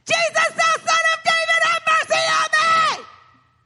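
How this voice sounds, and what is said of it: Screaming loudly. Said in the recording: “Quit screaming.”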